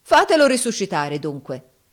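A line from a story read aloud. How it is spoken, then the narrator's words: Defiant shout. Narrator (Italian): urlò Giovanni in tuono di sfida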